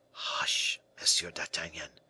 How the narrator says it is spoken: replied the man softly

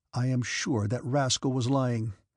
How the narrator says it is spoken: said the Count

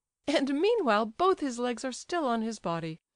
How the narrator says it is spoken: said the prince, laughing

